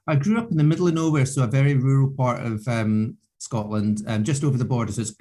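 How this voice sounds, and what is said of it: Scottish accent. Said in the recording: “so you're from Scotland ... dealing with the accent”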